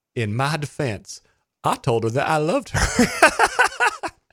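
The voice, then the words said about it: Imitates another person's voice. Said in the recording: “Terrible Bill Clinton accent”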